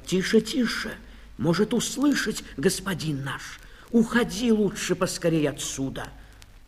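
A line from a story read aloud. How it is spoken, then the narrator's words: Frightened whisper. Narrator (Russian): пшеница испуганно замахала колосьями и зашептала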